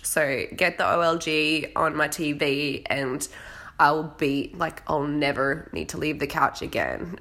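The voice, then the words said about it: Hoarse voice from a cold. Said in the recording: “I'm losing my voice now because I've still got this cold hanging around. So I better go because this cough is killing me.”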